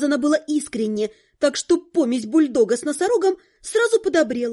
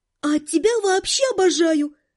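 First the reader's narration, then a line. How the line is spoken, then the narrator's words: Breathless exhale. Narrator (Russian): выдохнула я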